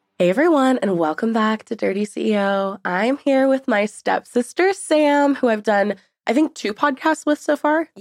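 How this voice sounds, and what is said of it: Very nasal, congested voice. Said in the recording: “I sound super nasally right now ... I'm currently fighting a sinus infection”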